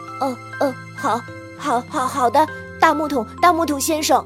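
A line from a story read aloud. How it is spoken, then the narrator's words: Stammering. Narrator (Chinese): 小鞋匠结结巴巴地说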